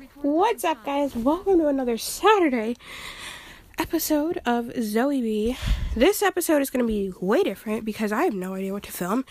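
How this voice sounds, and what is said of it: Out of breath. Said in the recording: “I'm out of breath”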